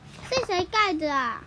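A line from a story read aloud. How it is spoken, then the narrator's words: Plain. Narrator (Chinese): 杰克问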